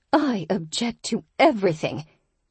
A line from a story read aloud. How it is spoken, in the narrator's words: Tabitha snapped